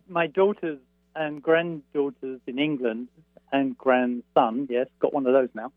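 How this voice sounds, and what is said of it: English accent. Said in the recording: “my best English accent ... I can hear it, too ... It's delightful, I must say ... The proper way to speak those words”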